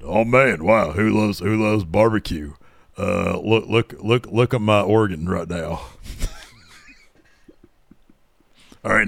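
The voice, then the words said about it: Imitates another person's voice. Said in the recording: “my best JR impression”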